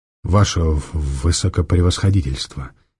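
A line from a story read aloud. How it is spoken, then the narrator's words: Quiet. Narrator (Russian): тихо сказал Ираст Петрович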